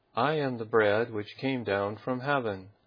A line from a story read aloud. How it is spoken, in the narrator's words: The Jews then murmured at him